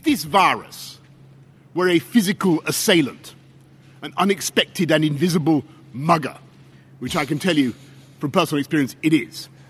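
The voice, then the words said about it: Distinctive accent. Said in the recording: “the accent is absolutely priceless”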